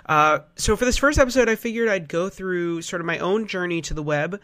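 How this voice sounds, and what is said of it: Nasal, congested voice. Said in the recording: “if I sound a little nasally. I've had a cold.”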